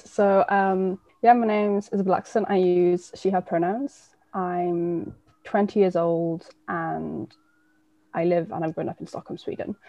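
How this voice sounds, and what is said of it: English accent. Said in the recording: “I have an English accent because my mum's from England.”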